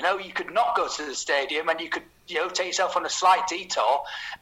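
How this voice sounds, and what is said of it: Northern English Yorkshire accent. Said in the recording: “your accent does remind me of Daniel Gray's. Are you perchance North Yorkshire, Humberside, Middlesbrough? ... I am South Leeds.”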